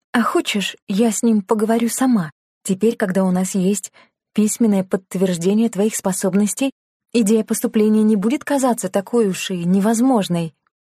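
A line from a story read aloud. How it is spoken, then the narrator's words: Sigh. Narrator (Russian): Лена вздохнула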